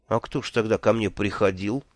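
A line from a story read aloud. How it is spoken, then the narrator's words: Unhappy voice. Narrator (Russian): несчастным голосом спросил я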